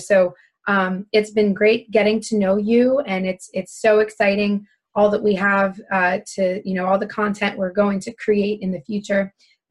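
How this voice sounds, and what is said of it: Raspy voice from laryngitis. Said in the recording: “please excuse my raspiness. I am getting over my first ever case of laryngitis. Never lost my voice this long before”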